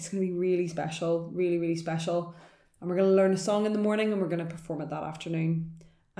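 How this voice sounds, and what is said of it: Northern Irish accent. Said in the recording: “my Northern Irish accent.”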